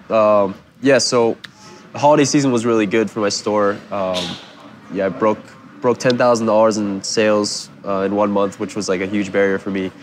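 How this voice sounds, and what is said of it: Congested, nasal-sounding sick voice. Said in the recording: “sick, so if he sounds strange ... Excuse my voice ... Sounding nasally”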